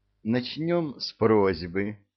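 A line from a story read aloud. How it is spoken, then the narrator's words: Gentle, affectionate. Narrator (Russian): ласково обратилась премудрая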